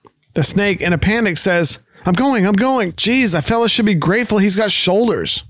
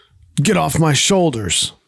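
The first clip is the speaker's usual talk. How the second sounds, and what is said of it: Deep voice. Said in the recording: “in a deep voice”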